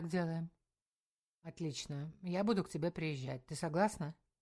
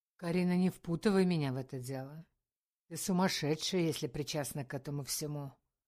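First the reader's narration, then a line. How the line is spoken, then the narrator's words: Threatening tone. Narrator (Russian): грозно сказал Валера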